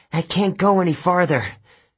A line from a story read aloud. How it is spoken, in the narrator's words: Rachel gasped